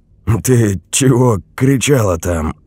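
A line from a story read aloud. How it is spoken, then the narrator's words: Hoarse, lost voice. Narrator (Russian): голос Андрея звучал хрипло и потерянно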